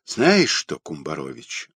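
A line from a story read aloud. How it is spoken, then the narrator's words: Sighing. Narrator (Russian): вздохнул Родионов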